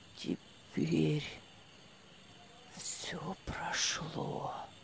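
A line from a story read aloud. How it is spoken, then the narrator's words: Whispered. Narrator (Russian): Прошептал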